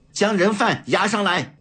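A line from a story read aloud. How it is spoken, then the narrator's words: Stern shout. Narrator (Chinese): 李子清 厉声喝道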